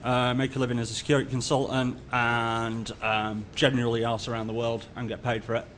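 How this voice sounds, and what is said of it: British accent. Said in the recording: “as you can probably tell by the accent, I'm based in the UK.”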